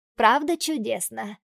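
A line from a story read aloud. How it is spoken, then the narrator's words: Joyful. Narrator (Russian): радостно говорит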